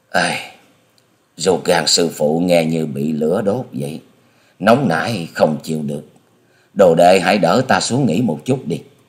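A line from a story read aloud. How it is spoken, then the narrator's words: Groaning, lip-smacking. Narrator (Vietnamese): Hà Xà Tiên Tử chép miệng rên rỉ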